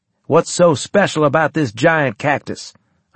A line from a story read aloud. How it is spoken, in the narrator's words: I asked